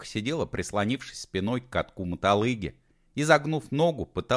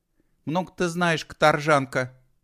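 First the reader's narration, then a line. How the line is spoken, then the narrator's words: Snapped. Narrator (Russian): огрызнулась Алена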